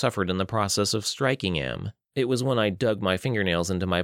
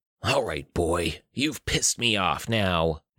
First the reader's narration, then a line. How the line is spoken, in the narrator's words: Noiland snarled